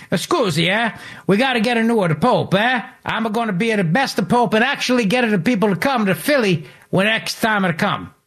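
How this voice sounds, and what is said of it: Terrible put-on Italian accent. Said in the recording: “doing a terrible Italian accent like I do”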